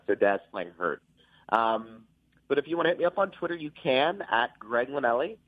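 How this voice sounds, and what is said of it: Sick, under-the-weather voice. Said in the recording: “I do apologize for my voice today. I'm a little under the weather.”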